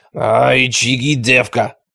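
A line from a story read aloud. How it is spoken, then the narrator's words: Hoarse bass approval. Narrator (Russian): одобрила она Луку хриплым басом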